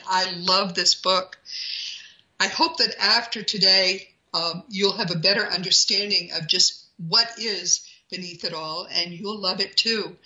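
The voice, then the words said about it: Strained, fading voice. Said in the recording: “I think I'm losing my voice.”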